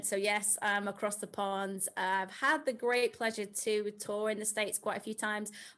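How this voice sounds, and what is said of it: British accent. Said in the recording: “British accent.”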